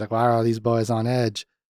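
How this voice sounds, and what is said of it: Put-on Southern accent. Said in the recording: “I've been doing Southern for him the whole episode”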